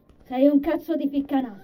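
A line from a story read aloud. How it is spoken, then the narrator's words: Laughing. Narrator (Italian): Giovanni rise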